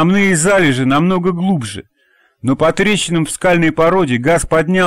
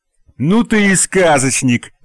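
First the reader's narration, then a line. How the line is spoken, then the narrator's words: Guffawing. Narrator (Russian): захохотал Костя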